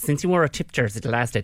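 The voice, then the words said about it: Imitates another person's voice, mannish. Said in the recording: “that's my really good impression of Eva ... She sounds like a bloke with a moustache”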